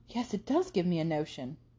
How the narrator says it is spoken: said Catherine warmly

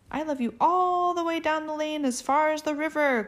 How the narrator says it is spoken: cried Little Nut Brown Hare

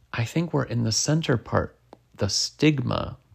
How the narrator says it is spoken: Tim said

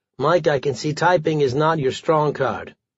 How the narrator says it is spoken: he calmly said to me

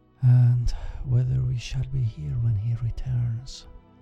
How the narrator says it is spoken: sighed Dame Hansen, but so softly that her daughter did not hear the words

